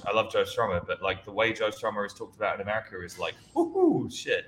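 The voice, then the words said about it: English accent. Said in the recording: “having an English accent”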